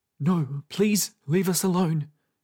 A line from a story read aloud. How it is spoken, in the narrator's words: said Twill's father timidly